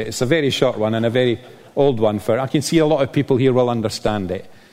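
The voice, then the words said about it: Scottish accent. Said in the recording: “You can probably tell by my well-disguised accent that I'm Scottish... I've had to refine my Scottish accent.”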